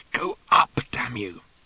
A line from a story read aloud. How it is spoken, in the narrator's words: Ford muttered hopelessly